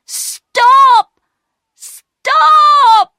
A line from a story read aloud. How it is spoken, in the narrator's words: shouting